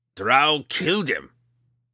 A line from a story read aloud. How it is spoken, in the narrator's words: he growled